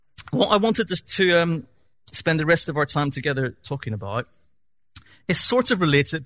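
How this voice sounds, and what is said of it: Northern Irish accent. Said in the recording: “I've rattled through that very quickly in my Northern Irish accent”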